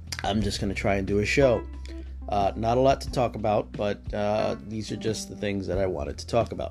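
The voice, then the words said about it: Sick, under-the-weather voice. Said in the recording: “I am a bit under the weather, so the voice sounds a bit different.”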